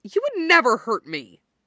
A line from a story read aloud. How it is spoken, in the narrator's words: Dorian snaps, like he's outraged at the mere idea